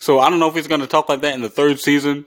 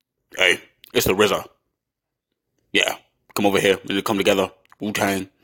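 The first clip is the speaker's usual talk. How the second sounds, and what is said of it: Imitates another person's voice. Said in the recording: “That's how he talks... that's my impression... That's my impression of how he talks.”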